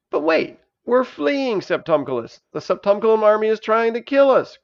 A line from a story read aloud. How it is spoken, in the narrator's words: cried Elisa